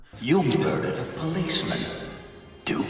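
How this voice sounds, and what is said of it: Scary voice. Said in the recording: “a scary voice”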